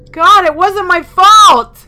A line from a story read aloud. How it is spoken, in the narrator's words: I yelled